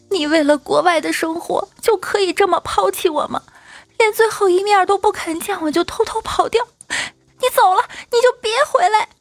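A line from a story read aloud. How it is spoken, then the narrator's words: Woman sobbing loudly. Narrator (Chinese): 一个姑娘跪地大哭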